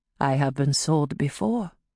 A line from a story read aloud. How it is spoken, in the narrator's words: she replied quietly